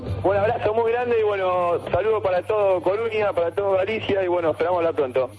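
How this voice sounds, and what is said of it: Argentine Spanish accent. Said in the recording (Spanish): “la sección de Argentina ... con ese acento”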